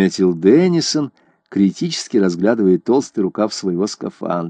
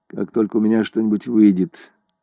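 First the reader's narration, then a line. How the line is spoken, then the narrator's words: Flat, colorless voice. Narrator (Russian): ответила Селена бесцветным голосом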